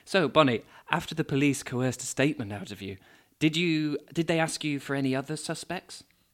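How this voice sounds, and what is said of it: Dramatic narrator voice. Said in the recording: “I'm with my narrator voice.”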